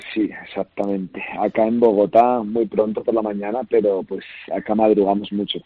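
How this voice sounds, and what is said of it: Picked-up local Spanish accent. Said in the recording (Spanish): “se te ha pegado el acento ... se te nota muchísimo”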